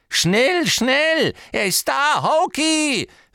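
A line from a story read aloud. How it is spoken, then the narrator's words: Called out. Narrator (German): rief Hepzibah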